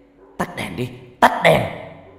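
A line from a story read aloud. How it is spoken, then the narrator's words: Muffled shout. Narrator (Vietnamese): người đó lấy tay che mặt rồi hét lên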